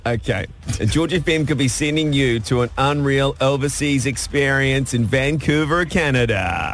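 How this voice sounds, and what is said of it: Put-on Canadian accent. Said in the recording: “I'm going to do an accent and ... going to do an accent. You tell us who's got the best Canadian accent ... let's go with the first one ... I knew I'd nailed”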